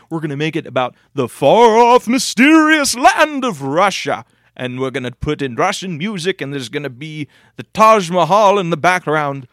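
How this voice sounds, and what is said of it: Snobby businessman put-on accent. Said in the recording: “what's the accent you're doing? ... That's my snobby bullshit thing. ... That's my snobby NES businessman. ... That's our horrible accent of you.”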